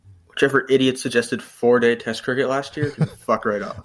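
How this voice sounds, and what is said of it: North American accent. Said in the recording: “What an American accent. ... Or Canadian, I don't know. ... North American.”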